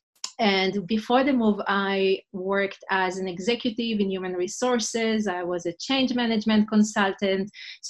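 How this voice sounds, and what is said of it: Israeli-accented English. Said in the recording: “my accent. ... I'm originally from Israel”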